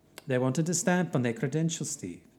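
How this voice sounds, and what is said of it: Poor put-on Norwegian accent. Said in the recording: “why does my voice sound like this? I really can't do a Norwegian accent”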